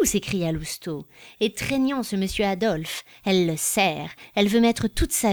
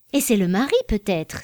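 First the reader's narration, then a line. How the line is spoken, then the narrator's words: Woman exclaiming. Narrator (French): s'écria madame de la Baudraye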